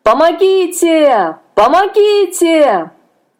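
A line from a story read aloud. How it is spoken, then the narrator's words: Exhausted desperate shout. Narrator (Russian): Собрав последние силы, закричал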